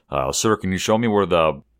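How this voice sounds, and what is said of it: Imitates another person's voice. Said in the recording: “I'm doing a little Peter voice.”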